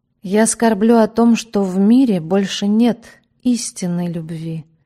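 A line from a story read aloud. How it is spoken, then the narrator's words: Gloomy. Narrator (Russian): мрачно сказала она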